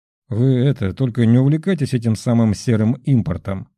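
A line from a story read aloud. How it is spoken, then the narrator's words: Plain. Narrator (Russian): сказал президент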